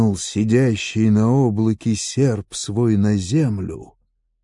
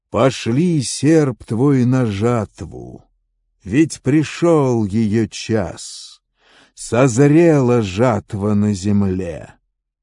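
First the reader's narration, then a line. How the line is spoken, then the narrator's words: Called out loudly. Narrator (Russian): громко воззвал к сидящему на облаке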